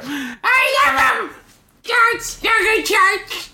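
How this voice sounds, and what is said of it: Screaming. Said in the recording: “Why are you screaming?”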